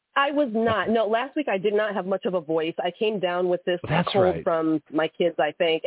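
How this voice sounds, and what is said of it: Slightly nasal, congested voice. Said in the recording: “I sound a little nasally”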